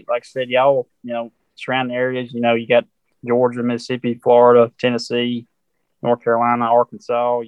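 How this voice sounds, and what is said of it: Southern American accent. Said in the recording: “nice Southern accent”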